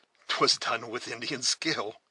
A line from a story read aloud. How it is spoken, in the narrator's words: said the scout, laughing inwardly, but with vast satisfaction